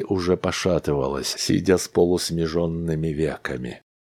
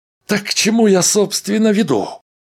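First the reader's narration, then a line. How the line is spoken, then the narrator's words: Sharply raised voice. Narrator (Russian): Резко повысил голос Дональдсон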